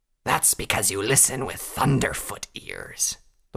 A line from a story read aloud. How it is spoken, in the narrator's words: the wolven snarled